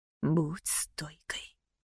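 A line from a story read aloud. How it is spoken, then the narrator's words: Father's whisper. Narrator (Russian): прошептал папин голос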